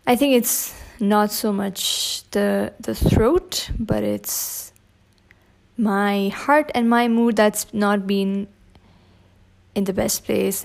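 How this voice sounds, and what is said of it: Hoarse, scratchy voice. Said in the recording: “excuse me if my voice today is a little bit hoarse ... it's been a little bit scratchy ... this rusty kind of”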